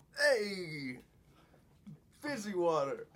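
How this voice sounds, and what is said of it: Put-on British accent, Fonz-style. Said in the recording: “Let's hear that UK accent again ... is that the Fonz? That was the Fonz. ... That's a British the Fonz ... why can't you just do a normal British person?”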